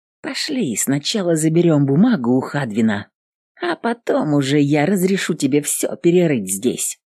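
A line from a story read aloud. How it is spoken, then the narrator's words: Quiet, to a dog. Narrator (Russian): тихо сказала собаке она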